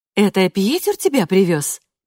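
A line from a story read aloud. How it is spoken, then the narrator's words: Interrupting, forced liveliness. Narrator (Russian): перебивает ее Катрин нарочито оживленным тоном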